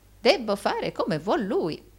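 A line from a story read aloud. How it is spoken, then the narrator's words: Old man exclaiming. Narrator (Italian): esclamò il vecchio Arturo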